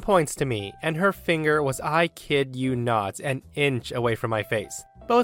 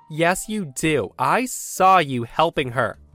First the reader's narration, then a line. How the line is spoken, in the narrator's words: in the nastiest, hateful tone that I've only ever read about, she says